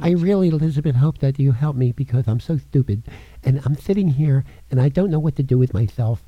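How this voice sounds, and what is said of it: Imitates another person's voice. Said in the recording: “a good imitation of Jimmy”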